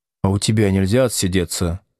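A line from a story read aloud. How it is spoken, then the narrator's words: Timid question. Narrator (Russian): робко спросил Слушкин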